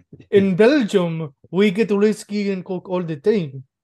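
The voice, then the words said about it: Weird put-on foreign accent. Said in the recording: “a weird fucking accent”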